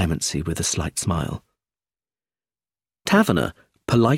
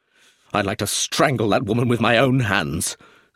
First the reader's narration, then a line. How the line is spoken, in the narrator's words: said Roger angrily